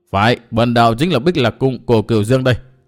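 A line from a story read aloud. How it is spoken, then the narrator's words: Contemptuous, dry-laughing. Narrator (Vietnamese): vẫn tỏ vẻ khinh thường, y liền cười nhạt nói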